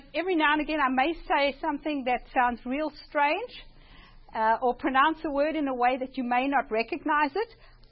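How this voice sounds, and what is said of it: Mild South African accent. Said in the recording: “the funny accent ... The accent is kind of a South African accent, maybe a little watered down”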